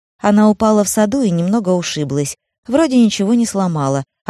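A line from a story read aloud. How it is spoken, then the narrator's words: Cheerful reply. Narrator (Russian): ответила она и заметила, что говорит таким же бодрым тоном, каким говорила с ней медсестра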